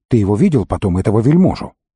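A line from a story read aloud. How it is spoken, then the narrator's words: Question while hurrying. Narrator (Russian): Тилорн, усердно старавшийся идти быстро, спросил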